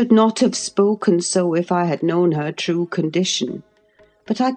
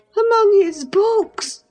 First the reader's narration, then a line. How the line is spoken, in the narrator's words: she cried, confounded